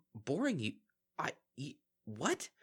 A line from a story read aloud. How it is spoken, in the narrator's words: Bon Bon spluttered incoherently